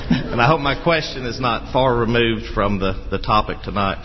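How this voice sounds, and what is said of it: North Alabama American accent. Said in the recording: “my accent is not as far removed, being from North Alabama, from the British accents”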